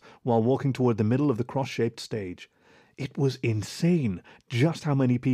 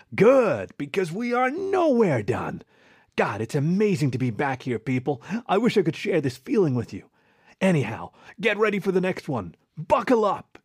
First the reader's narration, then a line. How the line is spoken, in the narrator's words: shouted